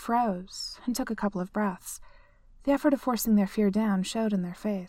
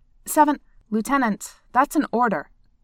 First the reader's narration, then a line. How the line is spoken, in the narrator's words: Seven said sharply